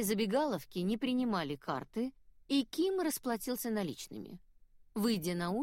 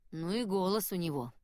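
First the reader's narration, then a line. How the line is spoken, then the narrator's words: Grumbling. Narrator (Russian): проворчал Ким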